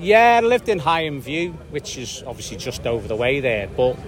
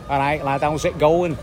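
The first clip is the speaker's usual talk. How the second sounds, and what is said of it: Salford accent with Wirral tinge. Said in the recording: “Could you still do a Salford now? ... or is that a bit Coronation Street for you? ... Bits of Wirral in it.”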